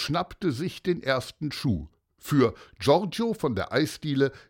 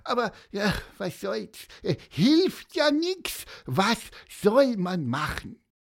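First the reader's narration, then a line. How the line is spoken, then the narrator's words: Squeaking. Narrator (German): piepste Pieper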